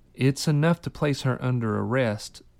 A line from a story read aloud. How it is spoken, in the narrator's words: Quill said